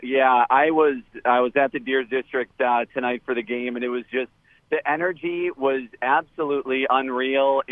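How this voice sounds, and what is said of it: Slightly hoarse voice. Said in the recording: “You can hear my voice is even a little hoarse from screaming.”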